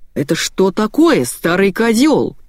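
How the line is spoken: Boss yelling. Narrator (Russian): заорал босс

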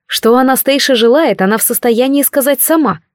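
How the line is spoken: Cold declaration. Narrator (Russian): холодно заявила я

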